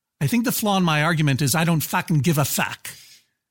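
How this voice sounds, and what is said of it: Weak put-on Boston accent. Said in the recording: “my terrible imitation of a Boston accent ... Yeah, it was weak.”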